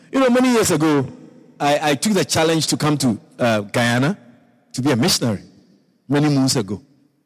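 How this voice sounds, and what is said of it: Ghanaian accent. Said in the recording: “from my accent and all of that, accent, ... Is he Nigeria? No, it's Ghana. I'm from Ghana.”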